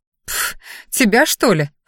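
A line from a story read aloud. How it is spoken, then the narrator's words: Snorted. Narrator (Russian): фыркнула она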